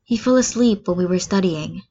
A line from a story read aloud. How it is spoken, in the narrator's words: Todoroki says quietly